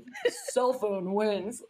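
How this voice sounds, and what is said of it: Mock announcer voice. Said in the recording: “that was my, like, announcer voice.”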